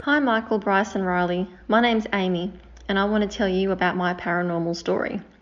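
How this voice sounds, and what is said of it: Speaks with a noticeable accent. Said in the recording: “Love that accent.”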